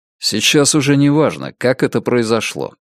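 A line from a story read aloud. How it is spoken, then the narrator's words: Calm. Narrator (Russian): спокойно сказал Ричард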